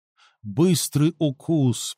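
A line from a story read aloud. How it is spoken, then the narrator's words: Insinuating whisper. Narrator (Russian): прошептал он вкрадчиво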